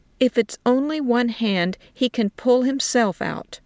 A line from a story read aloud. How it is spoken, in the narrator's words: she said firmly